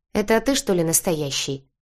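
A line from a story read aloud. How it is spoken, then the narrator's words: Snorting friend. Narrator (Russian): хмыкнула подруга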